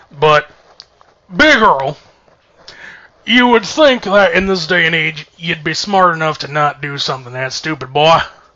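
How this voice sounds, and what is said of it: Put-on Southern drawl. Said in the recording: “I'm going to do this in this little southern drawl now, because that's Big Earl.”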